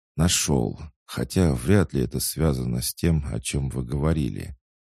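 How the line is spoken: Quiet young mage. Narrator (Russian): тихо признался юный маг

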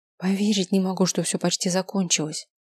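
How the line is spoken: Whispered. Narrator (Russian): шепнула та

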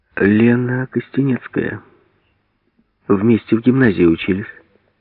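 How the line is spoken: Calm. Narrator (Russian): спокойно сказала Хлопушкина

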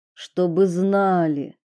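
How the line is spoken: Strained, forced out. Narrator (Russian): выдавил из себя

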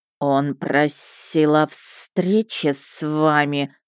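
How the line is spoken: Very quiet hiss. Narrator (Russian): совсем тихо прошипел Макнак

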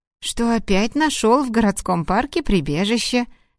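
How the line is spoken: Cheerful chirping. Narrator (Russian): весело защебетала сотрудница, не замечая состояния своего руководителя

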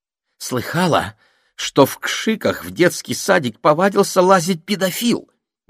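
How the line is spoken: Excited shrill woman. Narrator (Russian): возбужденно говорила женщина пронзительным голосом

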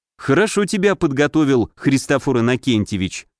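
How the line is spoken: Hmph. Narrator (Russian): хмыкнул я

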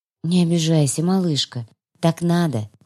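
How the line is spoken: Tender. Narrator (Russian): Ласково

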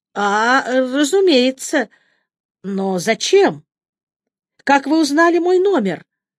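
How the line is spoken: Bewildered question. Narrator (Russian): Растерянно спросила я

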